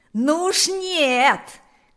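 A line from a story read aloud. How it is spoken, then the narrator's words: Loudest shouting. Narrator (Russian): кричал громче всех Панас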